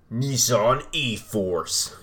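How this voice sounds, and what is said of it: Movie trailer announcer voice. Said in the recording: “use my movie announcer voice”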